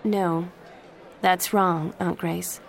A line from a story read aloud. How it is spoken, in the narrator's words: Jen said calmly